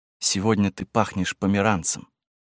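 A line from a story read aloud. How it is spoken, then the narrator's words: Whispering. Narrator (Russian): он прошептал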